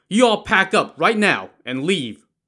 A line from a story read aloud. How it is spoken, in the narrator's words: Wu Song shouted at the remaining waiters